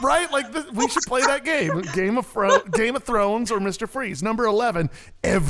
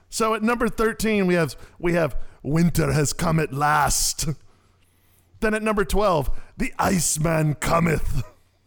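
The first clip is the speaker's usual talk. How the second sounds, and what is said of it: Bad impression of another person's voice. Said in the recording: “my best worst Arnold impression ... a bad Arnold impression”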